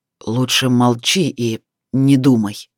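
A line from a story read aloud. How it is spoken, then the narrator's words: Through gritted teeth. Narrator (Russian): Сияр процедил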